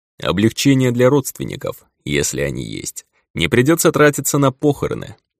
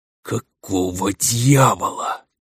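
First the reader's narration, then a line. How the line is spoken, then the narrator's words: Shocked whisper. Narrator (Russian): прошептал потрясенный Некрос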